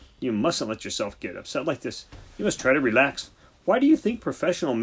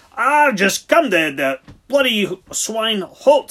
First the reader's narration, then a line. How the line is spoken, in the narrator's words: he shouted